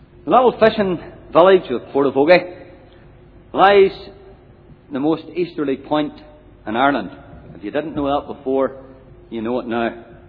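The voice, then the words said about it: Scottish-influenced Ulster accent. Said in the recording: “It was originally founded by five Scottish fishing families sometime in the 1800s, hence the accent.”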